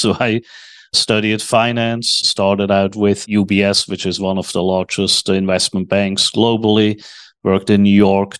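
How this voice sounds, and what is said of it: Swiss accent in English. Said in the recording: “That accent, obviously, as you can hear, is not from Texas. I was born in Switzerland.”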